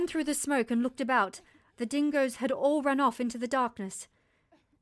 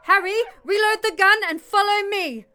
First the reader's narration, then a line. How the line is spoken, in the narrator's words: yelling over my shoulder